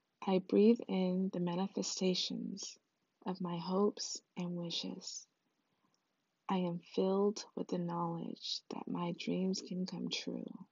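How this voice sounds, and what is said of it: Calm soothing meditation voice. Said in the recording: “in my meditation voice.”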